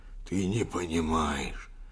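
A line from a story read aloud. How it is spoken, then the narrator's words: Old man's wheeze. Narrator (Russian): хрипел старик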